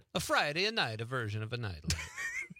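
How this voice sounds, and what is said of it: Put-on Italian accent. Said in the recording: “I almost morphed into an Italian accent there”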